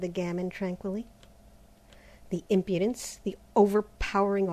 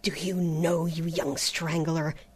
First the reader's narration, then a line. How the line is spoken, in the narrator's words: he gasped